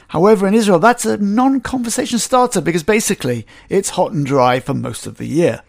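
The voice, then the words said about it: Slight English accent. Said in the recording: “I have a slight English accent because I'm an English-born Israeli”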